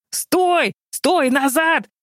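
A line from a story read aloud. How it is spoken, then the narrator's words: Technician screaming. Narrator (Russian): завопил главный техник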